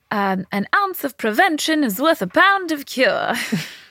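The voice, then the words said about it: Put-on 1940s-style accent. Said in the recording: “Love the accent. ... Magnificent. ... 1940s?”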